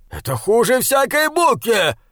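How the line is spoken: Growled. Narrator (Russian): прорычал он

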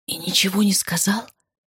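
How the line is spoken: Shocked whisper. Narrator (Russian): прошептал потрясенный Сава

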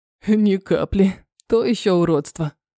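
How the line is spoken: Chuckling. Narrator (Russian): хохотнул Терри

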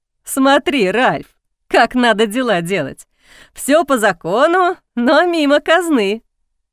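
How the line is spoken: Serious after laughing. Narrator (Russian): Отсмеявшись, король посерьезнел и сказал

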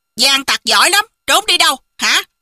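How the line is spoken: Distant shout. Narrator (Vietnamese): phía ngoài có tiếng người quát

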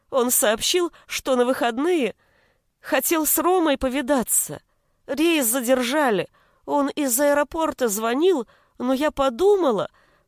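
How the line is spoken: Breaking into sobs. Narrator (Russian): она снова разрыдалась

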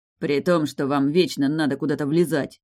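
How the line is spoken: Rude. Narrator (Russian): грубо ответил Раф

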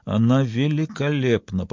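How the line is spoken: Muttered. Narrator (Russian): пробормотала

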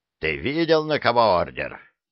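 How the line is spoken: Growling sergeant. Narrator (Russian): прорычал сержант

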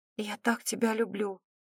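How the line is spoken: Choked whisper. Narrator (Russian): проговорила сдавленным шепотом

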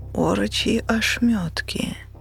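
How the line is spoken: Inward moan. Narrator (Russian): мысленно застонала девушка, уже не девушка

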